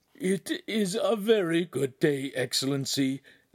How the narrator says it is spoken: Agostino said in a whimper

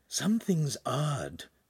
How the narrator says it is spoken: Pan whispered to Hansum

